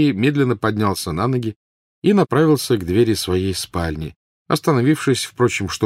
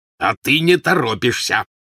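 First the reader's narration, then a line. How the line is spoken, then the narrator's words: Growl. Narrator (Russian): прорычал Вернон Дурсль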